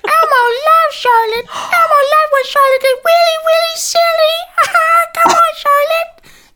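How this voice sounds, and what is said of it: High-pitched Elmo muppet voice. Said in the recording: “your Elmo impression”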